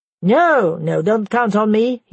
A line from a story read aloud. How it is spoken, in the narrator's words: he said